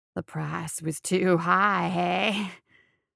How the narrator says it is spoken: cackled

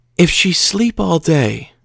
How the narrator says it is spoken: she said mournfully

